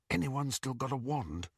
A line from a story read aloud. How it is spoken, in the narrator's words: Harry whispered to the other prisoners